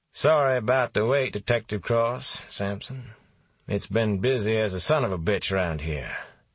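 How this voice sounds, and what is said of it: Light southern accent, confident. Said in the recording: “He had a light southern accent, lots of confidence in himself.”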